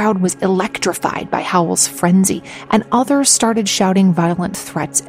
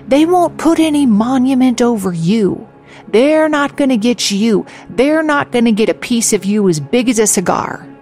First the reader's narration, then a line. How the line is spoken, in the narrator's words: Lee Howell shouted